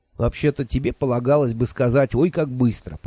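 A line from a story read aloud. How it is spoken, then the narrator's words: Grumbling. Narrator (Russian): проворчал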